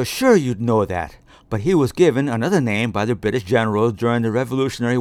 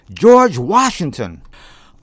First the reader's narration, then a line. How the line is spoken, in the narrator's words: they blurted out in one voice